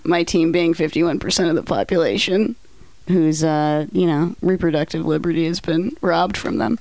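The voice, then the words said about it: Hoarse, strained voice. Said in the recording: “I'm losing my voice as we start recording”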